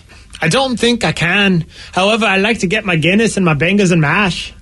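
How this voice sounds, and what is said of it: Put-on Irish accent. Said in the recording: “can you do an Irish accent? ... It's better than mine.”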